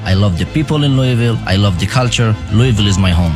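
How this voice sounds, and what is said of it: Foreign, non-Southern accent. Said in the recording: “My accent maybe sound different ... He may not sound like a southerner”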